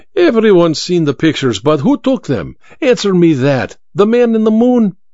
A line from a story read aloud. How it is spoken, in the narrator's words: Vera laughed at the memory